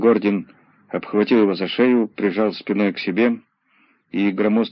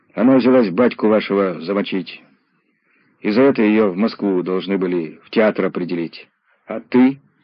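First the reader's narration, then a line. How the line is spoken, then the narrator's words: Plain. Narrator (Russian): спросил Задов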